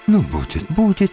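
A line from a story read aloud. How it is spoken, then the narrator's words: Soothing repetition. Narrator (Russian): повторяла успокаивающим голосом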